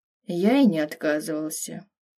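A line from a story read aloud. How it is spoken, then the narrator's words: Sighing. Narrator (Russian): вздохнул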